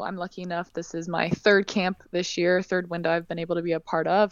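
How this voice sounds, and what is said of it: Woman with Californian American accent. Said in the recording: “we hear your accent. And it's straight out of California, all American girl.”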